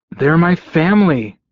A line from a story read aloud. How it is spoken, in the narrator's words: I snapped at her